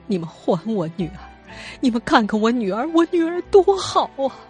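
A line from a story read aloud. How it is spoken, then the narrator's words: Desperate sobbing plea. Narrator (Chinese): 哭声减弱之后，她突然跪倒在马航的工作人员面前，求着他们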